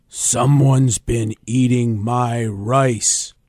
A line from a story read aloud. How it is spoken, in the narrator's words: growled the Papa Bear